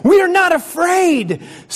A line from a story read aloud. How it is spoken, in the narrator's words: screamed Frog and Toad at the same time